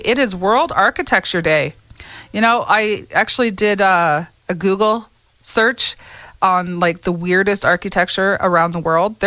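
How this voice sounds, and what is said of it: Voice sounds a bit sick, congested. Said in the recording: “I have a little cold.”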